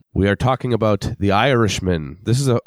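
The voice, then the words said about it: Weak attempt at Irish accent. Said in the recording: “I'm trying to do an Irish accent, and I just learned that I can't do an Irish accent on the fly.”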